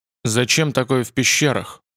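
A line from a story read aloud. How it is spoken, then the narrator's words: Grumbling mutter. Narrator (Russian): буркнул Михаил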